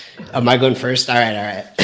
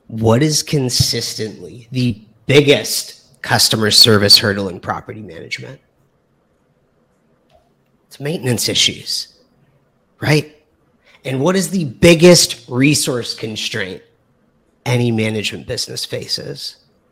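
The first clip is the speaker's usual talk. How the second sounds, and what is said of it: Smooth radio announcer voice. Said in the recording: “radio voice”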